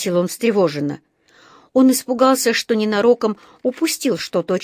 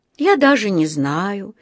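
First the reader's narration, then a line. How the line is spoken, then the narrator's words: Dreamy voice. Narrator (Russian): мечтательным голосом проговорил мистер Крубер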